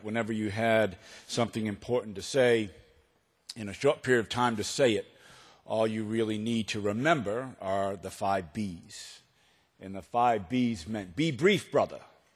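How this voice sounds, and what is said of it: Boston accent. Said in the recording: “the minute I start talking, it is apparent that I am from Boston ... the full effect of a Boston accent”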